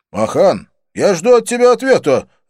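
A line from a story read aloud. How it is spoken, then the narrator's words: Barked. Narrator (Russian): рявкнул Доминик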